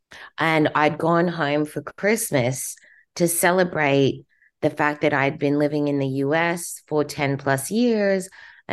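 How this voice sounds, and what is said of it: Australian English accent. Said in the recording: “my accent is Australian ... My accent's Australian because I was born in Australia.”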